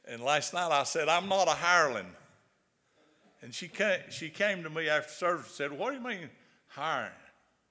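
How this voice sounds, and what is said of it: Southern American accent. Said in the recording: “my southern accent”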